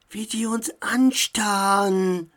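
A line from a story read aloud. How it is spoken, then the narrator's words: Boy whispering. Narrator (German): flüsterte ein Junge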